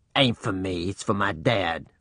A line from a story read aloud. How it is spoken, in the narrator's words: Reuben growled